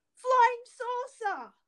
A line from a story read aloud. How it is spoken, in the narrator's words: her teammate shout